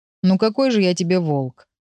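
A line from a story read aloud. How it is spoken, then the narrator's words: Sighing. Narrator (Russian): вздохнул Урс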